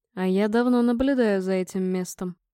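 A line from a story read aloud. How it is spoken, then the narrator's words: Calm. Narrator (Russian): спокойно ответил Торг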